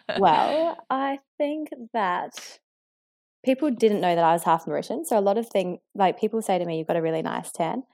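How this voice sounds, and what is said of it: Australian accent. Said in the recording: “They hear the Australian accent”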